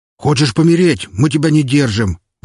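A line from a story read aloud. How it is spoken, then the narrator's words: Soldier's shout. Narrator (Russian): выкрикнул кто-то из солдат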